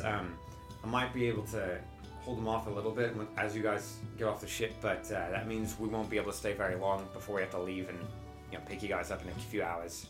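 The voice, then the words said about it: Character voice with Australian accent. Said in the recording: “has an Australian accent now”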